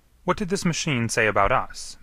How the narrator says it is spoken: Manning asked sharply

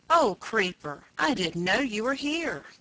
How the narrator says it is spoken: cried Peter

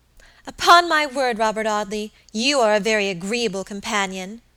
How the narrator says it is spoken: exclaimed Alicia at length, her rather limited stock of patience quite exhausted

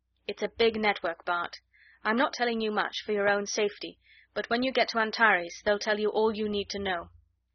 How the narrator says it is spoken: Raynor 3 said gently

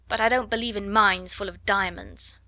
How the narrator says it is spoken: snapped Lavinia

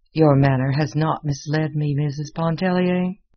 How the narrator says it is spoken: he said finally

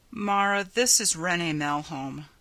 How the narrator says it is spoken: Ryanson said wearily

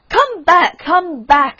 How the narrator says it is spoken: screamed the Rocket

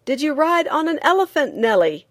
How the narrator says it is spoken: a man on the limits of it yelled

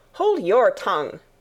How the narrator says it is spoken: cried the Tiger Lily

